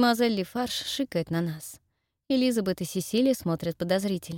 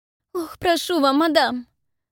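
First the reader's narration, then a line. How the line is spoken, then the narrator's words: Mock-tearful, suppressing laughter. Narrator (Russian): Начинает она говорить так, будто готова в любую секунду разрыдаться, хотя на самом деле едва сдерживает смех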